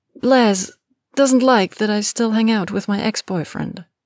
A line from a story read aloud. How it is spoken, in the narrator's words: Hermione answered hesitantly